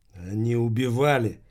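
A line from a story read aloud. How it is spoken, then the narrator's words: Calmer speech. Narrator (Russian): теперь Махмуд говорил уже более спокойно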